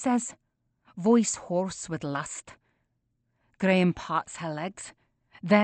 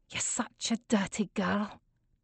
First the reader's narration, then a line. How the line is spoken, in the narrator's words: I whisper